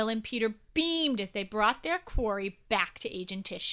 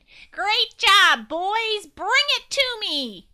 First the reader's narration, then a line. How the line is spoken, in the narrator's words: Agent Tissue … shouted